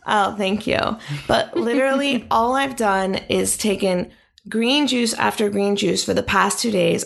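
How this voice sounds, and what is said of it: Slightly rough, scratchy voice. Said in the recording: “I woke up yesterday with a little tickle in my throat. As you can hear, it's come. ... You sound sexy. ... you can hear in my voice that there's something, there's a tickle”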